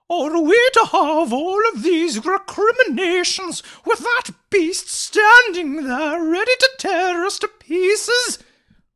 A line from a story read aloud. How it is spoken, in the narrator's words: wailed Mavis indignantly